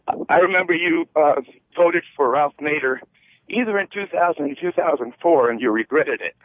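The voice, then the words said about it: Out of breath while talking. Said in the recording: “I'm walking, that's why I'm out of breath.”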